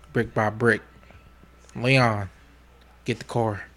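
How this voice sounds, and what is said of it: Good impression of a TV character. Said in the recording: “You actually do a pretty good Franklin Saint impersonation.”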